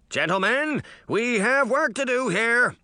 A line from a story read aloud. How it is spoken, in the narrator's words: Hampstead shouted